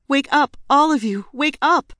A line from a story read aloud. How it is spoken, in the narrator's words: My cries